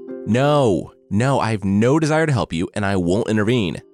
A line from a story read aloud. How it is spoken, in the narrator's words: the Maharel shouted into the street